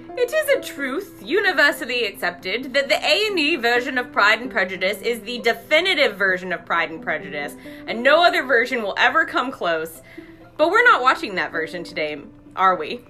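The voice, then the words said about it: Poor British accent fading out. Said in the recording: “your accent just, like, tapered off the farther that went... My British accent is what it is. Which is, what it is terrible.”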